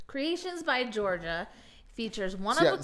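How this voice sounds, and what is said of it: Game-show announcer marketing voice. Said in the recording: “I love how the voice just automatically goes into this weird marketing special ... you were like the voice on Price is Right that comes and said, and this thing is this blah blah”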